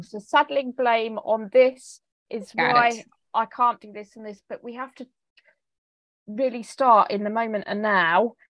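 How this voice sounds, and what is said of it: English accent. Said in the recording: “It's probably my English accent”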